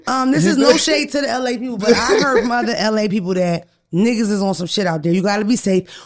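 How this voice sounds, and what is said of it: Usual voice. Nothing is said of it.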